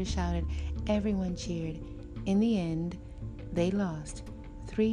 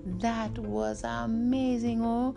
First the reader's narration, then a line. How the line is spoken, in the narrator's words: Godwin exclaimed